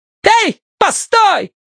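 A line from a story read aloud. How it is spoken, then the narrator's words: Worked-up shout. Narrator (Russian): крикнула разошедшаяся баба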